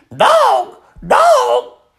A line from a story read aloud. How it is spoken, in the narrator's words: Gertrude kept screaming